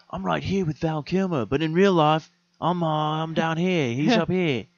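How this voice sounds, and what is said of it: Put-on Australian-sounding accent. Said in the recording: “I don't know why I gave him an accent. ... I don't think that Tom Cruise is Australian.”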